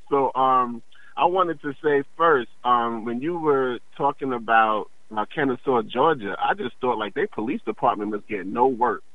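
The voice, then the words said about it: Tired, weary-sounding voice. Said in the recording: “I'm just really tired... I'm just kind of exhausted... I can hear it in your voice”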